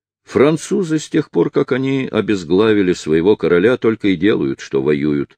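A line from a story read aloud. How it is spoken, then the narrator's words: Plain. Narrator (Russian): ответил судья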